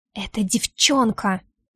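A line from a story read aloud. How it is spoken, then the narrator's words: Angry whisper. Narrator (Russian): шепчу зло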